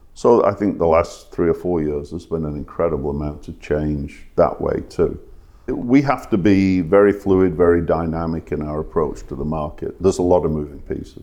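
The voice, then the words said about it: English accent from Manchester area. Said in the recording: “your accent isn't from Atlanta ... I was born on the south side of Manchester”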